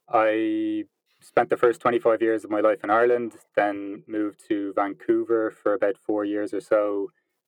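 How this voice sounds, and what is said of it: Irish accent. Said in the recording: “as you can probably tell by the accent, I'm from Ireland”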